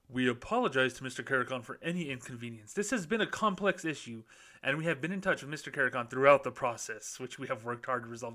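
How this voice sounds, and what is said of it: Mock formal corporate bank voice. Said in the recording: “to do my bank voice”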